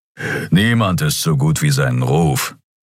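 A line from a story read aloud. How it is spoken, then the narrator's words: Growl. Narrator (German): knurrte Keru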